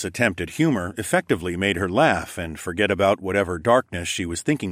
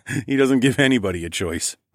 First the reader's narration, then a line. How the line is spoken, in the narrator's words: laughed back